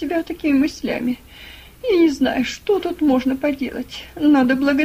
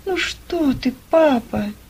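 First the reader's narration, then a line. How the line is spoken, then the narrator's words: Sad. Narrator (Russian): Грустно проговорила Ева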